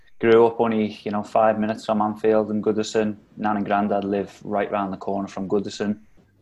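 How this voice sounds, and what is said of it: Liverpool accent. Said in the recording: “as you can probably tell by the accent, I'm born and bred in Liverpool”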